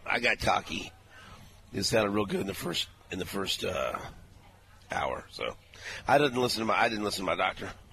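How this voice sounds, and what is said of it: Strained, damaged voice. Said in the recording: “my voice is screwed.”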